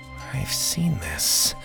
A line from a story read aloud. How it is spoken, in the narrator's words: he whispered to himself